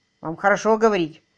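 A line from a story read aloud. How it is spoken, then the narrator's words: Snorting. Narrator (Russian): фыркнул Анструзер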